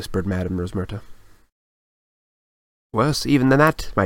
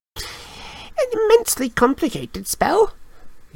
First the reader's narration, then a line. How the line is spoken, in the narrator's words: he said squeakily